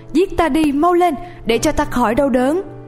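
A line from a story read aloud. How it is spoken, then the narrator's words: Loud desperate shout. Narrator (Vietnamese): hét lớn lên rằng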